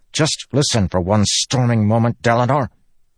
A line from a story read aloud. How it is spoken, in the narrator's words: Kadash snapped